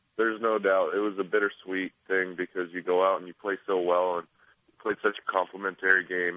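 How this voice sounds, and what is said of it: Congested, stuffed-up voice. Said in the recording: “I'm a little stuffed up, so you're going to have to excuse the voice this morning.”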